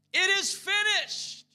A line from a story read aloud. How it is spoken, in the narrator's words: Jesus cried out in a loud voice